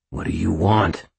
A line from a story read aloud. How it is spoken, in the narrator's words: Aristides growled